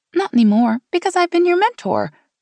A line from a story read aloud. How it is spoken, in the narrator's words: Meg laughed